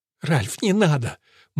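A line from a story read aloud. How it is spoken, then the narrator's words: Sobbing. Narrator (Russian): Мот разрыдалась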